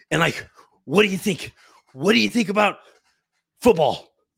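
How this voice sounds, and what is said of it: Imitates another person's voice. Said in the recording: “I feel like a McAfee like impersonation is so easy, right? You just like,”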